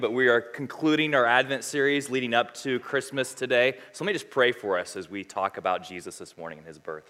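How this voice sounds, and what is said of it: Unusually deep, lowered voice. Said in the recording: “my voice is a little bit, baritone, so you can just pray for me”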